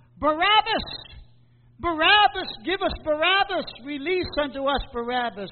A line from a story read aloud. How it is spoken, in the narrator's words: the people cried out